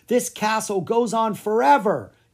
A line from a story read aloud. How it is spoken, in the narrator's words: Clara shouted